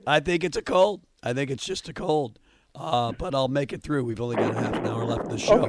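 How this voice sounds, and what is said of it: Hoarse voice. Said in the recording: “Are you imitating my voice, or are you really hoarse? ... I am really hoarse.”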